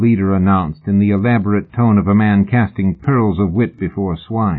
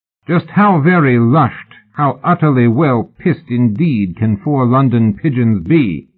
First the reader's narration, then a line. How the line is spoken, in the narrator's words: He raised his voice